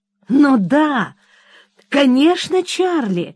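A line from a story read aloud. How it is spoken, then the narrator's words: Amazed exclamation. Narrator (Russian): в изумлении воскликнула я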